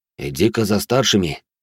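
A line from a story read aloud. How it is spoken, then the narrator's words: Quiet. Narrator (Russian): негромко произнес Финн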